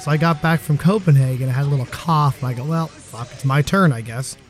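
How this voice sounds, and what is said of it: Voice sounds a little off. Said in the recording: “As you can tell, my voice is a little off today.”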